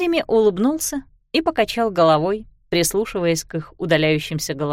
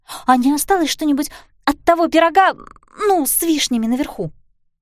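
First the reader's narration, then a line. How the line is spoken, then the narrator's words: Asked excitedly. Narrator (Russian): Пиппа взволнованно спросила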